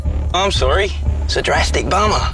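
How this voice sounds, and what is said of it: Put-on Australian accent. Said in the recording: “someone trying to put on an Aussie accent”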